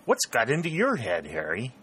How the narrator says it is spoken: he exclaimed

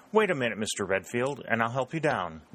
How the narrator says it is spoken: dryly said a thin-faced member from the Valley of Virginia

